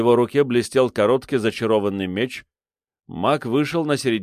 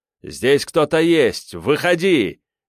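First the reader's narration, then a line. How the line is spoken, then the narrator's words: Shout. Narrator (Russian): крикнул Терех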